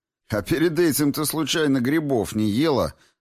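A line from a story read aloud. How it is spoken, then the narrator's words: Laughing. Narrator (Russian): засмеялся я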